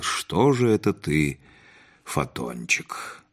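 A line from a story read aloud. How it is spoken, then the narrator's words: Quiet, tender. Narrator (Russian): тихо проговорил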